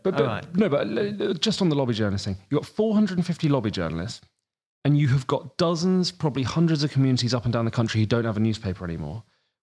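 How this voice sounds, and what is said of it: Sussex English accent. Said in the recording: “Where I grew up in Sussex, you can probably tell from my accent, I'm not from this neck of the woods.”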